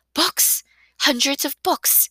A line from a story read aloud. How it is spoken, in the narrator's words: gasped